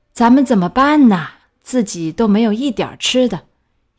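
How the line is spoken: Worried, sighing and groaning. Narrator (Chinese): 愁得辗转反侧的樵夫，他又是叹气又是呻吟，终于他对妻子说

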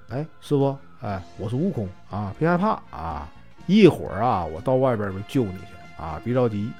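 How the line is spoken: Soft, reassuring. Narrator (Chinese): 就轻声对师傅说

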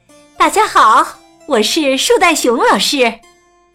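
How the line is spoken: Loud. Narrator (Chinese): 他大声说

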